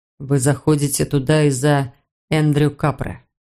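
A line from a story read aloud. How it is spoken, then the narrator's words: Soft. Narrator (Russian): мягко произнес он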